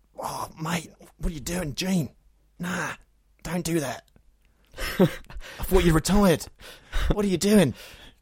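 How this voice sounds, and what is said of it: Imitates another person's voice. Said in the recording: “perform my latest impression, Hugh Jackman being punched by Gene Hackman ... Top notch, top notch”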